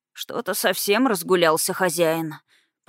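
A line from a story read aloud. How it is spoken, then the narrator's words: Grumbling mutter. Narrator (Russian): пробурчал Барт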